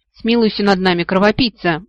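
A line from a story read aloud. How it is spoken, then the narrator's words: Pleading. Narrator (Russian): взмолился Кассандр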